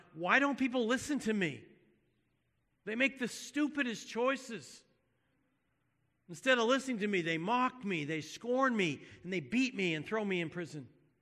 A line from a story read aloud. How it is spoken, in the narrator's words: he cried out to God